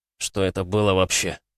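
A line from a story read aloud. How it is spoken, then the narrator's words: Weak voice. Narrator (Russian): слабым голосом произнес пришедший в себя Тарас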